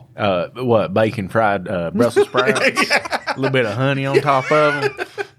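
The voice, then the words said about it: Southern drawl. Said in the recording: “sounds almost southern, doesn't it? ... say that in your drawl.”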